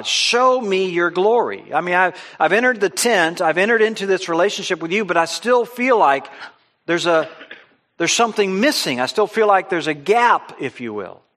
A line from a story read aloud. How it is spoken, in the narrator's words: Moses was continuing to plead with God